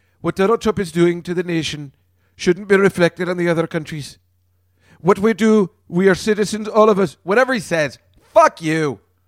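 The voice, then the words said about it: Put-on mixed English-Scottish accent. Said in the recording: “I don't know what accent I'm doing. I'm doing an in-between English and Scottish or something.”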